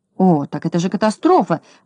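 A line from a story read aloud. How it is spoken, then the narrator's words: Exclaimed. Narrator (Russian): воскликнул господин Крабс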